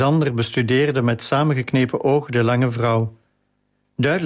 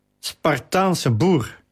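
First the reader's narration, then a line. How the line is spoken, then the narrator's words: Calling after someone. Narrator (Dutch): riep ze hem na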